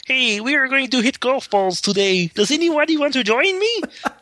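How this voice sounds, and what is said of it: Kermit the Frog impression. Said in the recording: “we always like say whatever in Kermit the Frog's voice”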